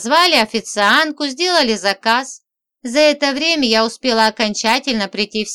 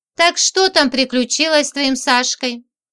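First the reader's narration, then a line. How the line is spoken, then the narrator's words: Sighing. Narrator (Russian): Людка вздохнула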